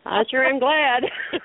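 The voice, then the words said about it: Southern drawl. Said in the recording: “that Southern talk ... I love the Southern talk. I love the draw.”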